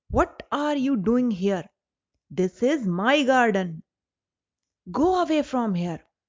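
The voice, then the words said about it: Loud, booming giant's voice. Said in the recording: “in a loud voice”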